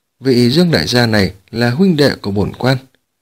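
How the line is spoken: Cold. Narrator (Vietnamese): Mã Độ lạnh lùng nói

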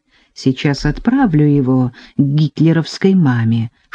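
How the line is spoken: Whispered. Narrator (Russian): шепнул Мамочкин

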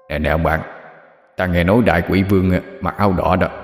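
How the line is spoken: Low whisper. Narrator (Vietnamese): Hắc Vô Thượng tiến sát đồng bạn, nhỏ giọng giao lưu

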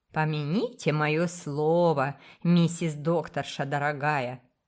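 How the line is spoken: Ominous tone. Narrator (Russian): предрекала она зловещим тоном

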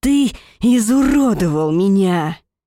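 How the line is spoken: Growling. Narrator (Russian): Рычание вырывается с последней фразой

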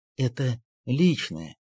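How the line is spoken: Muttered after a pause. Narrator (Russian): пробормотал он, немного помолчав и опустив голову

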